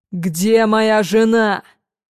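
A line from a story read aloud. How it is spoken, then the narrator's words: Thundering voice. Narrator (Russian): Прогремел голос Сэма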